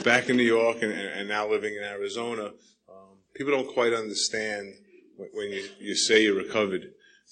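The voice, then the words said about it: New York accent. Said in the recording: “I know my accent's from New York”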